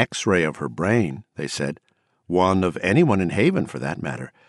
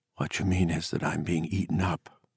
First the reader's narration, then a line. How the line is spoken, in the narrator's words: she whispered in the summer darkness